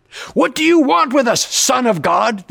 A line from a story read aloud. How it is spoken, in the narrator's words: demons shouted